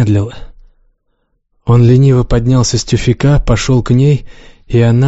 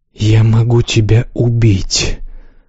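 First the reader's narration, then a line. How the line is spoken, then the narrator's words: Unsure whisper. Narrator (Russian): прошептала она гораздо менее уверенно, чем ей хотелось бы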